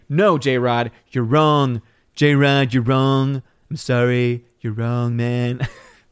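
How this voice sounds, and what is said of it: Imitates another person's voice. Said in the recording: “Terrible impression.”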